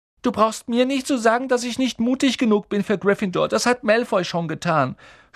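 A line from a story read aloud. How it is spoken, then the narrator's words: Sobbing. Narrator (German): schluchzte er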